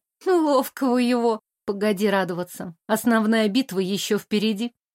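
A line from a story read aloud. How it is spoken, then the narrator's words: Smirking, anticipating smile. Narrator (Russian): Хмыкнула я в ответ, хотя губы сами растягивались в предвкушающей улыбке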